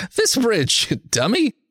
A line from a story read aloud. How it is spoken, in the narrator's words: Art laughs